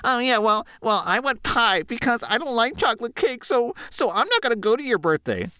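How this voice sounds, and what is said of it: Whiny, petulant child-like voice. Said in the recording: “you sound like a petulant 12-year-old”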